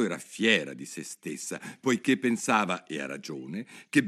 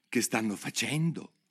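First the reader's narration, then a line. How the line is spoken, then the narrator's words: Whispered. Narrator (Italian): sussurrò Alice al grifone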